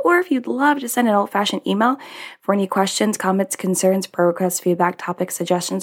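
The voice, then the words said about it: Deeper, slightly rough scratchy voice. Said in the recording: “my voice sounds a little different. It's a little deeper. It's a little scraggler. ... I was super frustrated today and I was hangry”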